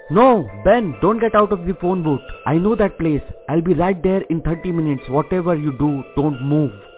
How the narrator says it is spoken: Rick shouted

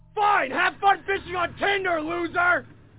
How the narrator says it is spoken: I stupidly shouted from the balcony saying

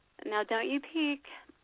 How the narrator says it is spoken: she teasingly said

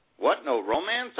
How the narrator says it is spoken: I exclaim

